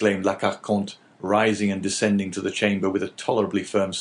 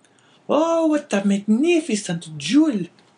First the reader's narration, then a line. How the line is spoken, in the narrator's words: cried the astonished woman